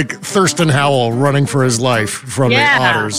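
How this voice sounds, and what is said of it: Usual voice. Nothing is said of it.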